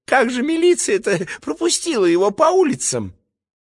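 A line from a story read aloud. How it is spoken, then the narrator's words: Frightened female voice. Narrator (Russian): второй, женский, испуганно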